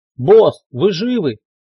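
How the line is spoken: Shout from another room. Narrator (Russian): крикнул он из приемной

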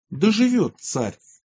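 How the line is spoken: Joyful crowd exclaiming. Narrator (Russian): Весь народ обрадовался и воскликнул

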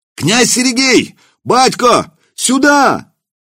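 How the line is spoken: Shouting from courtyard. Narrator (Russian): кричали во дворе кто-то из дружинных

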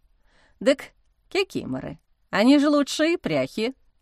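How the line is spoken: Amused snort. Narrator (Russian): хмыкнул Ануфрий

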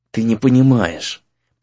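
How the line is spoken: Through gritted teeth. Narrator (Russian): процедил друг сквозь зубы

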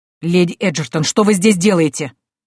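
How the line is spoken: Barked. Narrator (Russian): рявкнул он

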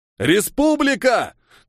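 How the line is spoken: Shout. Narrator (Russian): крикнул он

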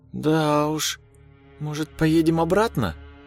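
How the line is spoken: Uncertain, hesitant. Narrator (Russian): Неуверенно произнесла жена

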